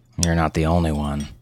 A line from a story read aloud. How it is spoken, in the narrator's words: her husband Steve mumbled